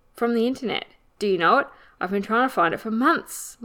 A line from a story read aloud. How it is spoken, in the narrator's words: Lewis exclaimed excitedly